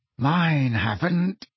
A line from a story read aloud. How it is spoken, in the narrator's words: said George through clenched teeth